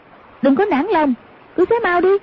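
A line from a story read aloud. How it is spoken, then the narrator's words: Sharp shout. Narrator (Vietnamese): Hoàng Dung quát lên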